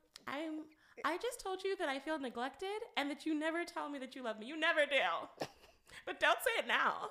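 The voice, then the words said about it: Mocking imitation of partner's voice. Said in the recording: “I'm going to change the voice up just a tad bit, so that you see how crazy you sound ... say what you were saying, but in a different voice”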